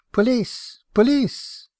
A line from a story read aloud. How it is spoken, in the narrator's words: She called out